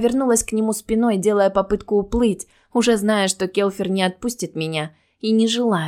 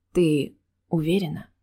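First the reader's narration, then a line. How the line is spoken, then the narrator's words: Quiet question. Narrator (Russian): тихо спросил он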